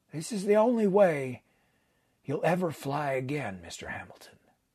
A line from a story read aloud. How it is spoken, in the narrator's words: added quietly